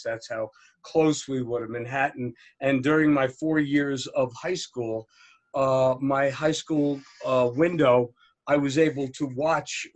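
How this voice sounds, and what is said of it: New Jersey accent. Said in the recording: “obviously, you could tell from my book. I'm not. I mean, from my accent ... I am from right outside of Manhattan in New Jersey”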